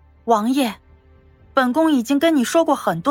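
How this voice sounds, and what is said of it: Usual voice. Nothing is said of it.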